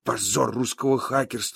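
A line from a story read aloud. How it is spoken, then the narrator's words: Mumbling. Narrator (Russian): бормочет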